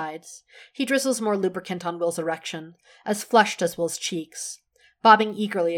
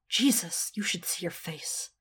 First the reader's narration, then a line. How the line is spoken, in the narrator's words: Will mutters